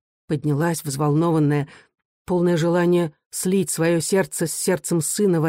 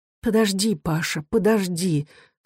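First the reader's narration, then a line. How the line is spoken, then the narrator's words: Breathless mutter. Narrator (Russian): задыхаясь, пробормотала она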